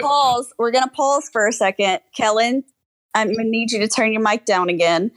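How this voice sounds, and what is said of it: Southern American accent. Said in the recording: “making fun of me for my southern accent”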